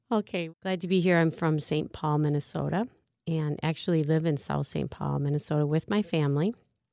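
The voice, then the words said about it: Strong Minnesota accent. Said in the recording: “I hope that my accent is not too strong here ... this strange voice”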